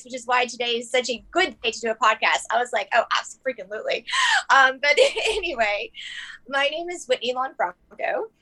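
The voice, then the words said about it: Hoarse, strained voice. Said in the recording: “apologize for my voice ... I talk so much leading tours and stuff that I've lost my voice”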